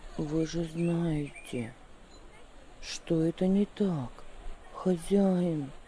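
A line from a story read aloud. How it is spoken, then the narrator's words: Calm. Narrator (Russian): ответил он спокойно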